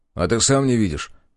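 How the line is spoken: Angry snap. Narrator (Russian): зло огрызнулся я

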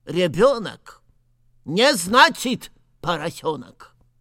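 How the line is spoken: Stern. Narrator (Russian): Снова строго произнес Наф-наф

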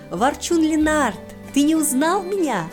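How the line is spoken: Exclamation. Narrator (Russian): воскликнула Илва

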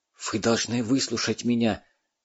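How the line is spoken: Urgent whisper close to ear. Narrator (Russian): жарко зашептал ему почти в самое ухо Дмитрий Степанович

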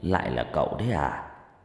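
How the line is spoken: Soft reply. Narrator (Vietnamese): Ông ta khẽ đáp

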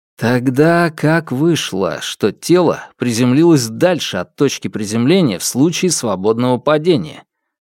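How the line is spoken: Plain. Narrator (Russian): спросил я

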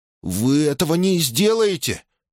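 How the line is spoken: Shocked stammer. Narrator (Russian): пролепетал Октавиан, потрясенный ее словами

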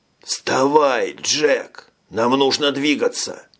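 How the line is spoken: Hoarse, out of breath. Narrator (Russian): прохрипел Ферлин, сам с трудом переводя дух

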